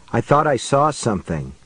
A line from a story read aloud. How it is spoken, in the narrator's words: Cynthia spoke in a low voice